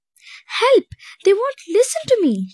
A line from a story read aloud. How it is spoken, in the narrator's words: she cried in frustration